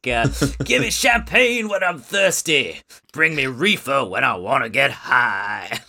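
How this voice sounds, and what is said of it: Imitates another singer's voice. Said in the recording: “that's not a problematic impression of Muddy Waters, because that's actually my impression of Mick Jagger doing an impression of Muddy Waters”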